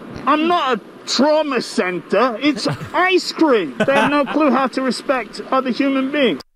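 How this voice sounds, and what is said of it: Odd mix of Boston and English accent. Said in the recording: “That's kind of a weird. ... it's very odd. ... Indistinguishable. ... British slash New ... England. New York. ... It's Boston slash English.”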